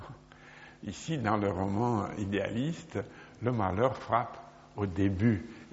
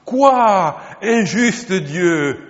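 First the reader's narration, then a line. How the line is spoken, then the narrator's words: Exclaimed. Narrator (French): s'écria-t-il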